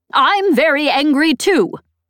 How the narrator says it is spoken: Embot shouted from behind me

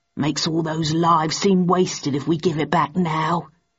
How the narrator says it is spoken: added Stanford gruffly

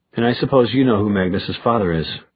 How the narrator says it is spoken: Luke said

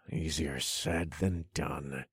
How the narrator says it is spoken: I muttered under my breath

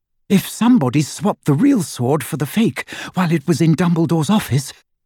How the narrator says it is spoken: she panted

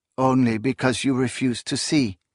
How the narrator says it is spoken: she murmured

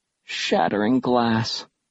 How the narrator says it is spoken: she muttered

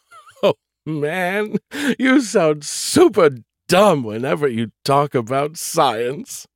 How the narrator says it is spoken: he giggled

